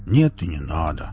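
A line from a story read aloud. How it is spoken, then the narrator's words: Upset mutter. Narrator (Russian): расстроенно буркнул Велес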